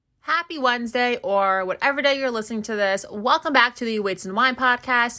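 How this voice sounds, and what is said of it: Energetic, pumped-up voice. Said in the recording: “you can probably tell in my voice ... I just have so much energy and I'm so freaking pumped”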